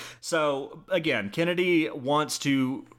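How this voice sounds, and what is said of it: Usual voice. Nothing is said of it.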